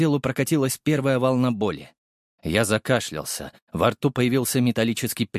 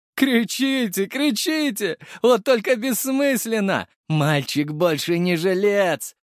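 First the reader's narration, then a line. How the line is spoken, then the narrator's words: Laughing loudly. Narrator (Russian): Живанский захохотал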